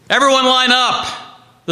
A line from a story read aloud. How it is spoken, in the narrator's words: the soldiers shouted